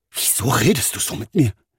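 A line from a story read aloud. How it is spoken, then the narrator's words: Hurt hissing. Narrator (German): fauchte Marcel seinen Vater verletzt an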